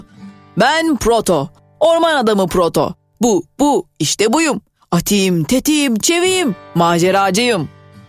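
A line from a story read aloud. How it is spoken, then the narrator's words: Shouting. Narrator (Turkish): diye bağırdı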